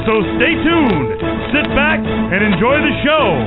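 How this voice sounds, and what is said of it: Fantastic radio announcer voice. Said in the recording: “a fantastic radio voice”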